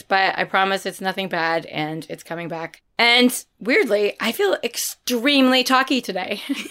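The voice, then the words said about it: Hoarse, partly lost voice. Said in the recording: “Don't adjust your sets. Yes, my voice sounds weird. I did lose my voice... I've lost my voice”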